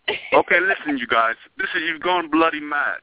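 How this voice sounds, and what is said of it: Unconvincing put-on English accent. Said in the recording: “They said you don't even sound English... They said you don't sound English... my English accent, it needs a little work”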